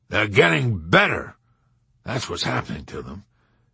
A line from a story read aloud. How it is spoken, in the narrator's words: General Dreidel growled emphatically